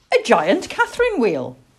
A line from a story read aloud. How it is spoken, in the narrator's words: cried the little boy